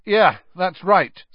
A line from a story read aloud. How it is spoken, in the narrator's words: said Harry, raising his voice slightly